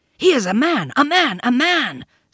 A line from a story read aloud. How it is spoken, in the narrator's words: snarled the pack